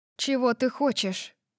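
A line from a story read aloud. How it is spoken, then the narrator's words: Even voice. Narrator (Russian): спросила я ровным голосом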